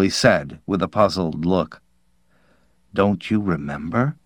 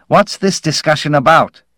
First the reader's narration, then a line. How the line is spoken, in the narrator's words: Fermetti said impatiently